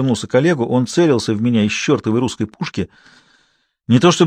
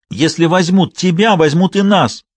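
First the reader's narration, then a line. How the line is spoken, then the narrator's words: Tearful shout. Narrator (Russian): прокричал он со слезами в голосе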